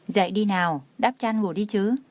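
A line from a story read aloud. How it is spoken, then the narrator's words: Soft, gentle. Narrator (Vietnamese): khẽ nói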